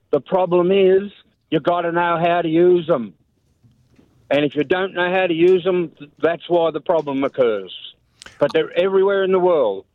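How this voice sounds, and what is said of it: Australian accent. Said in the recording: “your accent... I love that accent... Australian accents are terrific”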